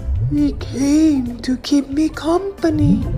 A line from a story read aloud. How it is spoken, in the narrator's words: someone sadly say